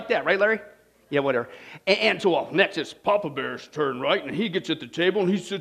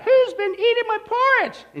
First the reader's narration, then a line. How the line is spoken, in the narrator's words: he squeaks out